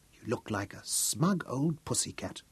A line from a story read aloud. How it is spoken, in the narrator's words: whispered, and chuckled softly